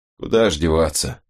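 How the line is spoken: Gruff mutter. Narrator (Russian): буркнул он

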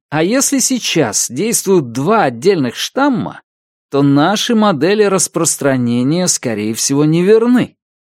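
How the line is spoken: Loud. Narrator (Russian): громко сказал Ахилл

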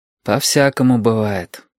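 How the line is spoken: Sighing. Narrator (Russian): вздохнул Юртанка

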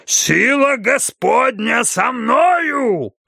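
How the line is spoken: Preacher's roar. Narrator (Russian): взревел проповедник

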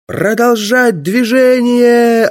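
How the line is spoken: Yelling. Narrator (Russian): орал я

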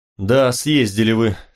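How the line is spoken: Sighing. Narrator (Russian): шеф тоже вздохнул

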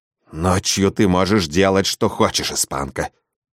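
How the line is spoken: Through clenched teeth. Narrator (Russian): процедила она мне в лицо

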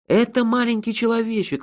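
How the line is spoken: Joyful yell. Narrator (Russian): радостно заорал я

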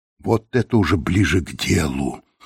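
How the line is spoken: Excited whisper. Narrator (Russian): прошептал Лэнгдон, не в силах скрыть волнение

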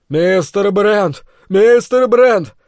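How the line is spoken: Loud yell. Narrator (Russian): заорал мой спутник

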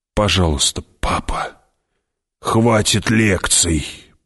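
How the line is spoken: Whisper. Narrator (Russian): прошептал Кинес

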